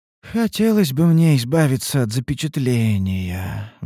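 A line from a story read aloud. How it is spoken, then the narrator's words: Sighing. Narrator (Russian): вздохнула Ульданте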